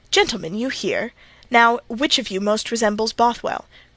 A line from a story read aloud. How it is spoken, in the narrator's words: cried Mr